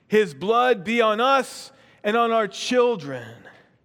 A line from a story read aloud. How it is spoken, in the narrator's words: The people they cried out